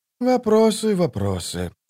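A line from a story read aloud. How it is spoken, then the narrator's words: Sighing. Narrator (Russian): вздохнул Колот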